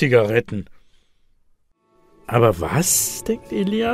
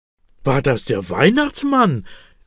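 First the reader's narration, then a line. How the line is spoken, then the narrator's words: Excited question. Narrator (German): will Elias aufgeregt wissen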